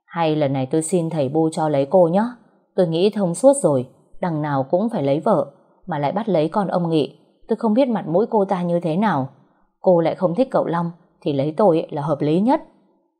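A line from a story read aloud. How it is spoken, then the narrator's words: Soft, gleeful. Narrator (Vietnamese): hí hửng, cậu ấy nói khẽ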